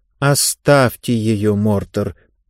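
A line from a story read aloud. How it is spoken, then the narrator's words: Mumbled. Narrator (Russian): пробормотала Лектория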